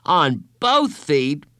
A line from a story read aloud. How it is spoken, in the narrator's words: Bradley exclaimed